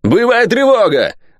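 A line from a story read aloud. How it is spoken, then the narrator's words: Sudden bark. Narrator (Russian): гаркнул он тотчас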